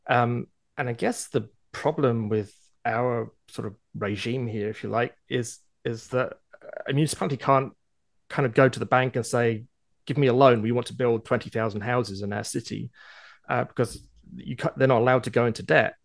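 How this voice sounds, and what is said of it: Foreign accent. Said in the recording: “I grew up overseas, as you can tell from my accent”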